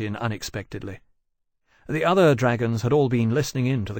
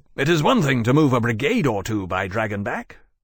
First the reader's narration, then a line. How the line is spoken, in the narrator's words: Wellesley said impatiently